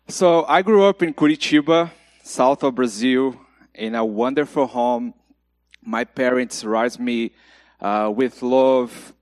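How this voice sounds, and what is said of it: Brazilian Portuguese accent. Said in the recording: “my accent is from Brazil ... my broken English”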